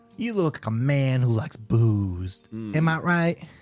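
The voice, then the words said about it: Put-on Southern accent. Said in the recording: “I got a southern accent for some reason”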